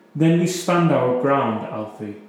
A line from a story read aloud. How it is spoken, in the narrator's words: she said firmly